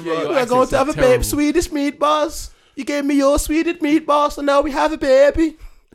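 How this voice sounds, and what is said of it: Mixed Scouse and Eastern European accent. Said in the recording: “Little bit of scouse, little bit of Eastern European, little bit sweet.”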